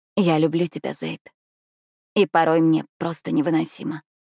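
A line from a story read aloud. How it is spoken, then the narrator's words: Hoarse breaking voice. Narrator (Russian): произношу я хриплым и срывающимся голосом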